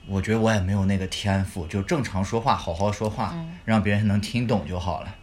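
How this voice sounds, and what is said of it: Mandarin with Taiyuan accent. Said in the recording (Chinese): “我们自己觉得我们自己说的是普通话。但其实我们说的是标标准准的太原普通话”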